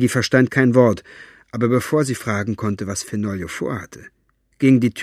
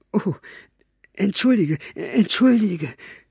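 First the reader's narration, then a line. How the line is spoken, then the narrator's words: Stammering. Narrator (German): stammelte er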